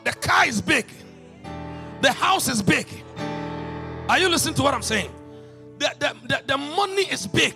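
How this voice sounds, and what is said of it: African accent. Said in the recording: “Don't mind my accent. In Africa, we say money.”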